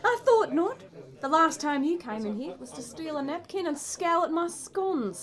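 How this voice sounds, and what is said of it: Fake Australian accent. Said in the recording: “drop that silly accent ... Heaps. Bonza, didgeridoo is what I'm talking about ... I'm as Australian as Kylie Minogue”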